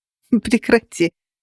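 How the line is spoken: Laughing. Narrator (Russian): Рассмеялась я

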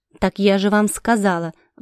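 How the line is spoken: Irritated snort. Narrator (Russian): в раздражении фыркнула Летисия

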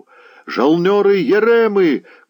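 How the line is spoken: Shouting voices. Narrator (Russian): кричали на судне

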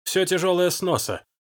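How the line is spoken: Bark. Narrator (Russian): рявкнул Халькель

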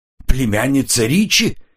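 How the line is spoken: Exclamation. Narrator (Russian): воскликнул Эмис

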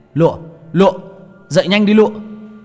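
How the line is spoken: Panicked shout. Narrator (Vietnamese): Tôi hoảng hồn, miệng hét lên

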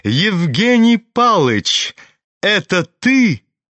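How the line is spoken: Sudden ringing shout. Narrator (Russian): крикнул вдруг звонкий, прекрасный голос

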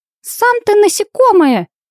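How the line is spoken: Indignant squeak. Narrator (Russian): возмущенно пискнула Винни

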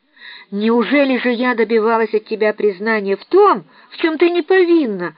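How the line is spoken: Exclamation. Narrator (Russian): воскликнула мисс Офелия

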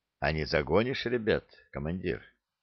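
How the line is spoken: Quiet question. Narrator (Russian): бродяга тихо спросил

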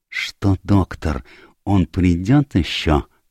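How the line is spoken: Whispered question. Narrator (Russian): шепотом спросил Пуаро

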